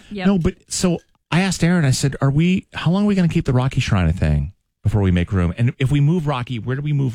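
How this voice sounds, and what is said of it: Unwell, strained voice. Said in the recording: “I'm sorry that my voice is like this. I had this thing like the last 2 weeks where I just can't.”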